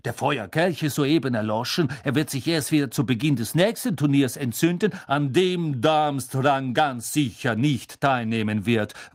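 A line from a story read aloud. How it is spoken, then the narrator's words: Angry interjection. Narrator (German): warf Karkaroff zornig ein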